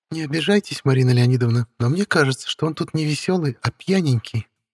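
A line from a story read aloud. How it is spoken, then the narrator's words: Giggling. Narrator (Russian): хихикнула ведьма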